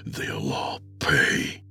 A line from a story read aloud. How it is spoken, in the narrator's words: he whispered to her